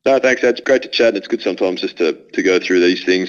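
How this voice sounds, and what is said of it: Australian accent. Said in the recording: “you've still maintained to keep your Australian accent, which we really love”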